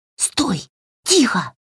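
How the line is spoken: Hiss. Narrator (Russian): прошипела Васька

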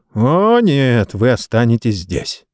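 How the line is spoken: Snorting. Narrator (Russian): Хуруга фыркнул

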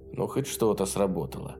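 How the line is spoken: Mutter. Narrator (Russian): пробормотал он

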